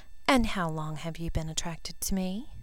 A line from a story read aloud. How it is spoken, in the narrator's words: Breathing heavily, he whispered his admission